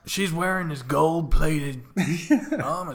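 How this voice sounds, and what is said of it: Gruff old man voice. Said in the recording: “I sound like an old man ... that's your Dom impression”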